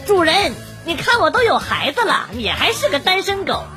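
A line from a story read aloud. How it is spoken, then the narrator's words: Shrill voice. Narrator (Chinese): 我妈尖声尖气的说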